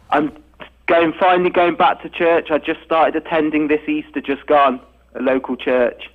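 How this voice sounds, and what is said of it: Speaks with a distinct accent. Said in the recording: “You just can't beat the accent.”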